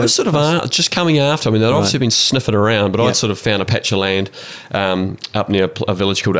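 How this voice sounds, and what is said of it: Usual voice. Nothing is said of it.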